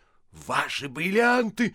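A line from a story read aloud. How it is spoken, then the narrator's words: Startled loud shout. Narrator (Russian): закричал он, пугаясь силы своего голоса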